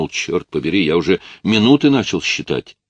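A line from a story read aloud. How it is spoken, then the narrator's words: Exclamation. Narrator (Russian): Едва увидев, как голова Рэя показалась из воды, Джейк воскликнул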